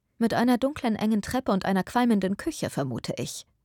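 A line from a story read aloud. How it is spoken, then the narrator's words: Plain. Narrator (German): sagte Eleanor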